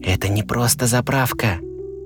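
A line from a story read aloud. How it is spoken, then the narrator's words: Whisper. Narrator (Russian): прошептал Пик-Пик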